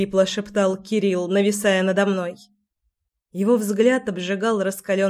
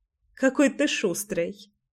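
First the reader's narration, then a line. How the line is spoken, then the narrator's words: Chuckling. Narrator (Russian): хохотнула я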